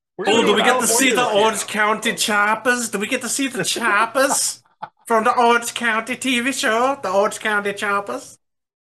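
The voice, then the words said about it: Put-on Swedish-sounding accent. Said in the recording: “Are you Swedish right now? ... I don't know where that accent came from.”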